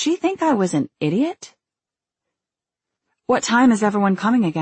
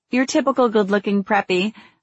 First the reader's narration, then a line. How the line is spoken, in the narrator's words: I laughed